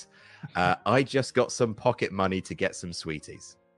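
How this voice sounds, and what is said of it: Quieter version of presenter voice. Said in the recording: “in your presenting voice ... I can't yell at this hour ... do your presenting voice but quieter”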